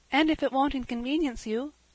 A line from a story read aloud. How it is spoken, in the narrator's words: said Cecily timidly